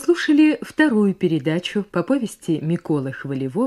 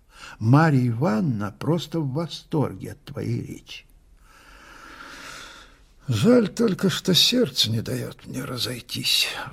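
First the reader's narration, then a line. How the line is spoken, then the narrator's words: Sighing. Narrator (Russian): вздохнул мой герой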